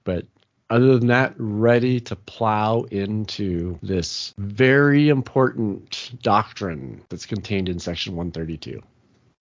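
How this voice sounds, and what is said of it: Slightly sick-sounding voice. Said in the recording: “my voice is a little bit different, so a little bit sick.”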